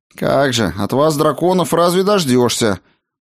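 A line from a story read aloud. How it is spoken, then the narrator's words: Grumbling, secretly pleased. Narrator (Russian): Проворчала она, но было приятно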